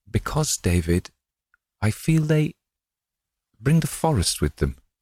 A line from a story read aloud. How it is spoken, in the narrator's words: she faltered